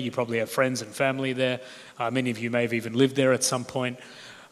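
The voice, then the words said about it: Australian accent. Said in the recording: “As you can hear, both from my introduction and my accent, I'm Australian.”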